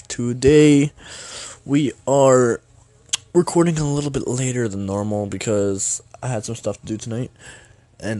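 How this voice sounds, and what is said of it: Scratchy, sick-sounding voice. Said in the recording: “Pardon my voice, I'm a little sick actually ... my throat's scratchy as heck”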